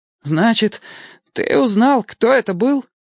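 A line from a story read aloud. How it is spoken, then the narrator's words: Frightened question. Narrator (Russian): испуганно спросил Кустик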